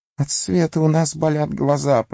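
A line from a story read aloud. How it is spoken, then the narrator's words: Whimpering. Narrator (Russian): проскулил Горлум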